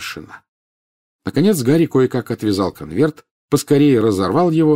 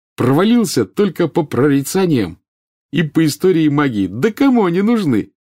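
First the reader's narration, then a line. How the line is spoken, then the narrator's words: Cheerful. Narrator (Russian): весело сказал он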